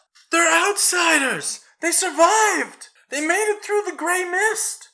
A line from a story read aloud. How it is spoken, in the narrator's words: you hear someone shout